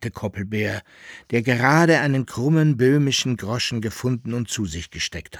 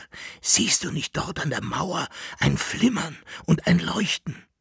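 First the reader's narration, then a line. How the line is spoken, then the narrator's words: Whispering. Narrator (German): flüsterte Jekyll-Henard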